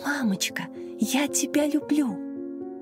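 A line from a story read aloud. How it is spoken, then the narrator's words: Small child's whisper. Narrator (Russian): Младшая, трехлетняя Маша, шептала ей на ухо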